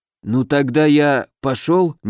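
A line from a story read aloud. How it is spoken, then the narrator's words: Hesitant question. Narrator (Russian): неуверенно уточнил домовой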